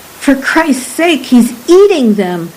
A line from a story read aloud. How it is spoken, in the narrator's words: Marano cried